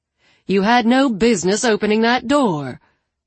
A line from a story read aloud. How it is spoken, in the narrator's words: Allie snapped